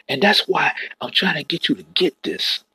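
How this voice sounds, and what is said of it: Excited, barely restrained preaching voice. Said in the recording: “hear the excitement in my voice, I'm trying to suppress it ... I'm ready to shout”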